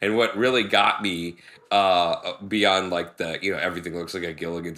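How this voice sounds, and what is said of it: Usual voice. Nothing is said of it.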